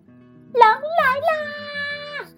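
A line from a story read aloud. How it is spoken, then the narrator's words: Loud shout. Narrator (Chinese): 它就大声喊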